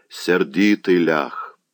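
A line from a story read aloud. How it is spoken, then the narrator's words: Gruff mutter. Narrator (Russian): Тугай-бей буркнул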